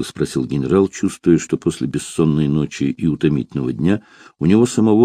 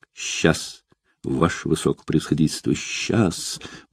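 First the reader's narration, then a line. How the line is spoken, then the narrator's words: Mumbling youngster. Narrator (Russian): пробормотал молокосос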